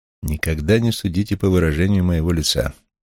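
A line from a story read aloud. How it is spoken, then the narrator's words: Plain. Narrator (Russian): ответил я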